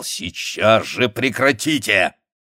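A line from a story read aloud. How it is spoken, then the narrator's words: Growl. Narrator (Russian): прорычал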